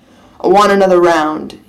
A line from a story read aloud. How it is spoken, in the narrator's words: he growls